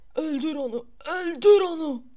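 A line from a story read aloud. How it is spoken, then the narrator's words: Screaming. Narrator (Turkish): diye haykırmasını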